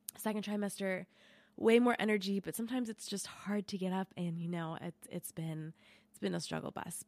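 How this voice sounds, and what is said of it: Sick, congested voice from a cold. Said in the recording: “you can probably hear it in my voice, but I am sick this week. I just got a cold”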